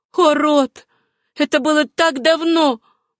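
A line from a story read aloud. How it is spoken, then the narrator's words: Pleading. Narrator (Russian): взмолилась Сюзанна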